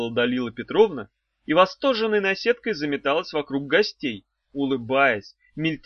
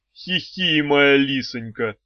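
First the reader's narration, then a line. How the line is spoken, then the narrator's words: Deep bass voice. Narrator (Russian): басом отвечал Герострат Андреевич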